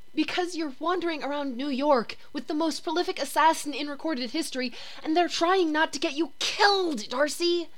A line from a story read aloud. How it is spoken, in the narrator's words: Jane the Voice hisses shrilly